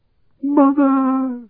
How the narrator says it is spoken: he shrieked

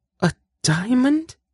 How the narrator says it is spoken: She gasped

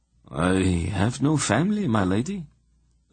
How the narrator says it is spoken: Emma replied in a dead voice

